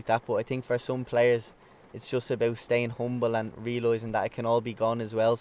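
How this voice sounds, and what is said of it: Dublin Irish accent. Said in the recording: “You haven't lost your Dublin accent anyway ... Some lads go over and they have this English twang and they have this English accent. You don't.”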